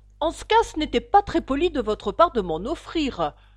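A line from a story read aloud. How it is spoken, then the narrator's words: Annoyed tone. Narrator (French): dit Alice d'un ton fâché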